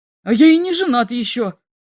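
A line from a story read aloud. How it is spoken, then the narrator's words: Shouting. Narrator (Russian): закричал второй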